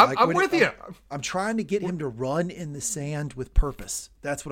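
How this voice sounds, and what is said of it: Usual voice. Nothing is said of it.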